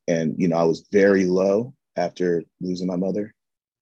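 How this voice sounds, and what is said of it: Voice cracking with emotion. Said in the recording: “can hear the crack in my voice”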